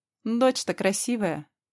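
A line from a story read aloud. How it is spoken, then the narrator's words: Snorting. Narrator (Russian): хмыкнул Ашер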